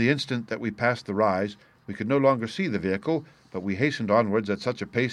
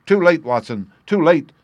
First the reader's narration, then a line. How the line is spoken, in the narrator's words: cried Holmes, as I ran panting to his side